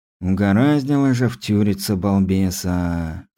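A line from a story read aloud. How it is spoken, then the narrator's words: Heavy sigh. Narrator (Russian): тяжело вздохнул Стас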